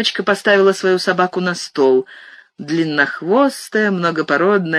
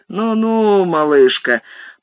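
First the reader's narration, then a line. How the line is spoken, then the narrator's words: Cooing. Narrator (Russian): проворковал Стьюи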